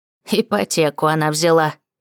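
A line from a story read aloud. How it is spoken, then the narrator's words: Granny snorting. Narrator (Russian): фыркнула бабуля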